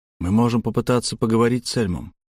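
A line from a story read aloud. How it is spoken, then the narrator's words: Hoarse. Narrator (Russian): хрипло сказал я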